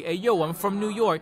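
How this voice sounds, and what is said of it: Slipping New York accent. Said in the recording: “his accent slips a lot, and I make a lot of jokes about it ... Like, his accent will slip. Obviously not that heavy.”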